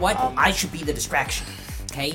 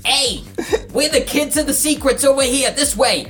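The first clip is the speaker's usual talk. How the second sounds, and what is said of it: Yelling. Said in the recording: “I'm yelling”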